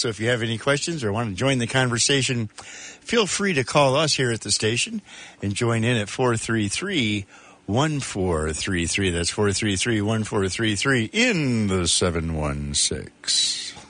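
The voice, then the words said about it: Exaggerated smooth radio announcer voice. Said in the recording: “That's a little extra new radio voice right there. ... I figured I'd put on my extra good radio voice ... That's like 1980s overnight voice”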